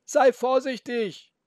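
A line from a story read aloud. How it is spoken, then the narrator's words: Grandfather calling after. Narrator (German): rief der Opa nach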